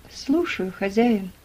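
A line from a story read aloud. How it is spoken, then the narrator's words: Calm. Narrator (Russian): спокойно ответил Том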